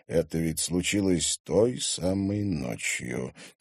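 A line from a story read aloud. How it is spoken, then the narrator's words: Quiet. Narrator (Russian): тихо сообщил шериф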